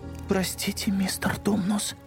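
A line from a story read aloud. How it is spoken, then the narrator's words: Whisper. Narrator (Russian): прошептала Люси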